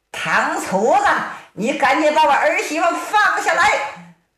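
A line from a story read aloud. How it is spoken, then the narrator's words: Shouting while running. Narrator (Chinese): 乔能一边喊一边追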